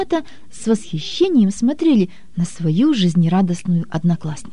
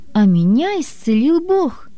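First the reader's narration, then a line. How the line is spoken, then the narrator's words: Joyful. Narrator (Russian): Наташа радостно сообщила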